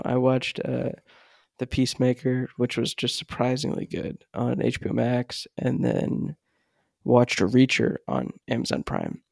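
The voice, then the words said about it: Speaking quietly, volume held down. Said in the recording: “if it sounds like my voice is a little weird, I am trying to keep my volume down ... trying to limit my audio levels”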